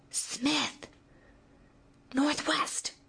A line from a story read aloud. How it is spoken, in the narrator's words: Jarl's persistent whisper came again, urgently, and with a dreamlike slowness